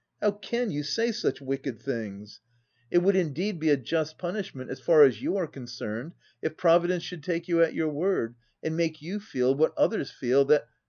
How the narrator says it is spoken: cried Millicent

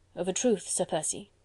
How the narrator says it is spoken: murmured Chauvelin, still hesitating

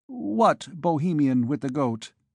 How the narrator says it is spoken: he stammered

